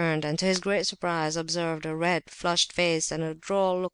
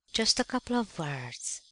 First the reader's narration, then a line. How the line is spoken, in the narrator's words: whispered another voice